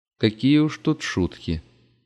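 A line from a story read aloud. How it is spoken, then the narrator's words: Calm voice. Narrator (Russian): подтвердила та спокойным голосом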